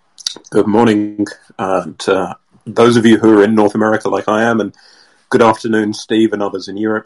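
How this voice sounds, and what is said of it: Hoarse, congested, fading voice. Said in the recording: “I've come down with a bit of a cold, and I'm starting to lose my voice.”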